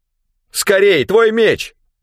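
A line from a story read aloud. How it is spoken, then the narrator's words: Shout. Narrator (Russian): крикнул Рэндом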